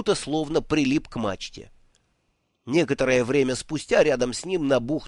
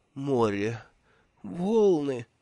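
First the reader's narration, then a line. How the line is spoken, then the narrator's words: Mumbled through closed mouth. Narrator (Russian): пробормотал Бруто, стараясь не открывать рот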